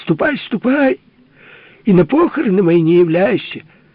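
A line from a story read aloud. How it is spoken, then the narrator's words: Father shouting. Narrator (Russian): Папа-герцог кричал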